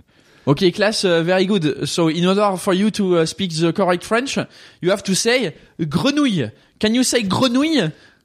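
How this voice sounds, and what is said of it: French accent speaking English. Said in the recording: “random accent challenge ... a French person teaching a class of English people how to speak French in English”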